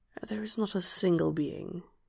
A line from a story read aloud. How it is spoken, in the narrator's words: he whispers